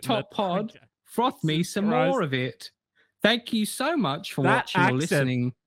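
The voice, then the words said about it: Wandering put-on accent, slightly northern. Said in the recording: “That accent took us all around the fucking globe. I don't know where to pinpoint that ... Not quite sure what this accent is anymore, but it's a little bit northern, isn't it?”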